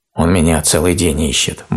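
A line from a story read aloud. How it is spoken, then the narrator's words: Grumbling bear cub. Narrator (Russian): буркнул медвежонок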